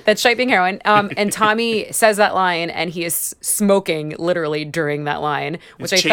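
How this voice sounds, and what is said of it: Usual voice. Nothing is said of it.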